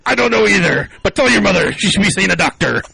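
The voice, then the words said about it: Terrible pirate accent. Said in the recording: “The really terrible pirate accent”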